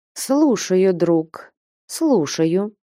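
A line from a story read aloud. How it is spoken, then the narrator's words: Slow speech. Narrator (Russian): медленно проговорила Манефа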